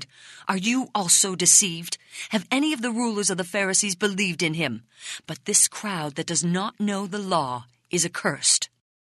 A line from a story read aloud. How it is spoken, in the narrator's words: Now enraged, they cried